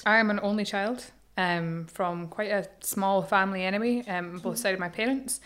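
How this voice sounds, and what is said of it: Scottish accent. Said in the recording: “I'm from Edinburgh. ... Gorgeous accent. Well. I love your accent.”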